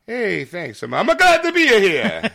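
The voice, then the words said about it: Put-on Italian-style accent. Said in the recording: “Why are you talking like that? I'm in Italy. I'm in the Vatican. ... You got to talk like this ... the holiest of holies of accents”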